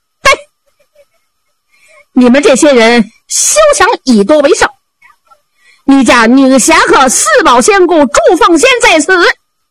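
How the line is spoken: Woman shouting loudly. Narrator (Chinese): 房上有一个女子高声喊嚷

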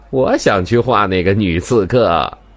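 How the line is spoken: Joking. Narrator (Chinese): 明台开玩笑地说道

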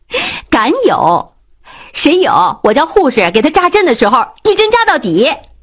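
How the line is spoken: Laughing. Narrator (Chinese): 关灵笑了说道

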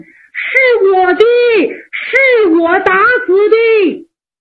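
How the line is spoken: Anxious shout while running. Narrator (Chinese): 公冶长以为叫别人看见了死山羊，怕别人拿走，一边跑一边喊

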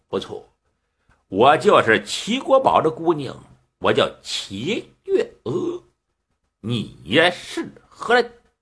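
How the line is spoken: Smiling. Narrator (Chinese): 齐小姐一笑

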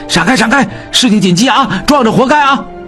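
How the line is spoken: Shouting while running. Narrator (Chinese): 秉坤心中一急 边跑边喊

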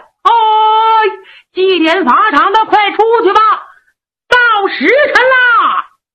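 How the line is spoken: Shouting. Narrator (Chinese): 有人喊

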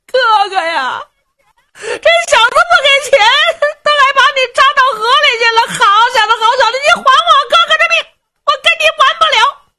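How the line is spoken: Helmsman crying. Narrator (Chinese): 这个掌舵的就哭了

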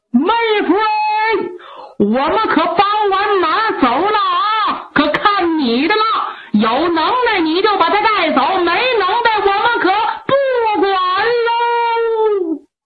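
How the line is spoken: Gleeful shout from afar. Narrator (Chinese): 牧童牧铁心里这个乐呀，冲着前边高喊

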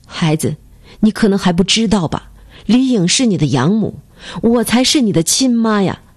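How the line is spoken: Choked, tearful. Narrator (Chinese): 王梅满脸泪痕，哽咽着说

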